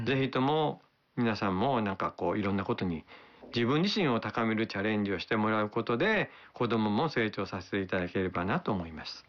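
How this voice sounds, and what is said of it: Kansai dialect accent. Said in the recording (Japanese): “関西弁で話される”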